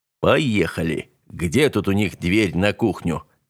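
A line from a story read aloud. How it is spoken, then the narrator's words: Quiet. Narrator (Russian): тихо произнес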